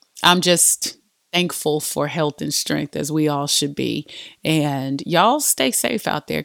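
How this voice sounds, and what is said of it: Congested, sick-sounding voice. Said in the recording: “I had the whole flu this week... if y'all hear any kind of drainage... my voice sounds a little bit different”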